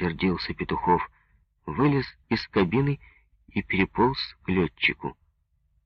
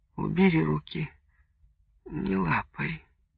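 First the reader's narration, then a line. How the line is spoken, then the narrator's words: Sleepy weak voice. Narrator (Russian): она вдруг произнесла сонным слабым голосом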